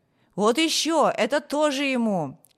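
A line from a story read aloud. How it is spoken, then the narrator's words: Several voices shouting. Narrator (Russian): другие кричали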